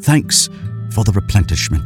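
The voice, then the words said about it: English accent. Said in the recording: “he said in an English accent.”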